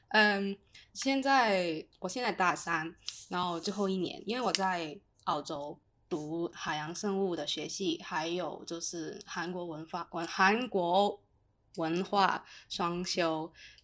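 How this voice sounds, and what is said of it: Hong Kong accented Mandarin. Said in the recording (Chinese): “我是香港人呐。呀，听我的口音应该也可以猜得到一点”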